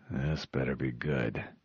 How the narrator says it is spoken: he muttered

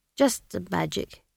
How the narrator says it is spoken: he mumbled

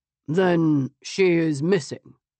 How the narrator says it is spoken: he replied flatly

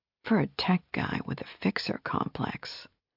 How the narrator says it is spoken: she whispered

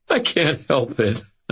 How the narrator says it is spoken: I said, wiping at tears of laughter

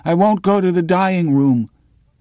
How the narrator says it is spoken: He cries out feebly with his shattered lung

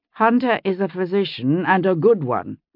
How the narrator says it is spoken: John said firmly

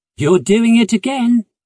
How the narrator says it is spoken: he said cheerfully

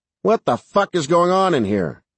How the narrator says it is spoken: Sarge barked

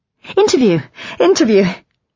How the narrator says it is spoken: I could feel myself colouring, I gave a false laugh and said

